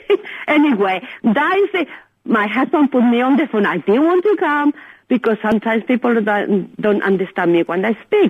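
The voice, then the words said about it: Strong foreign accent. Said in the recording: “My accent is very strong”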